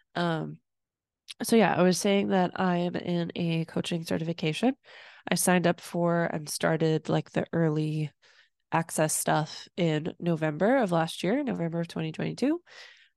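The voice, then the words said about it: Speaking with a cold. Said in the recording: “a little under the weather today... Just had a little cough attack... I have a little bit of a cold.”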